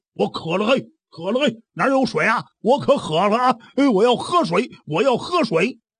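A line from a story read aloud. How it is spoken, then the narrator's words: Shouting while walking. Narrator (Chinese): 一边走啊还一边喊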